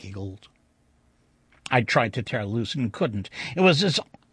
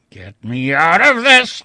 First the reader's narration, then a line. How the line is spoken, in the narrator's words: I roared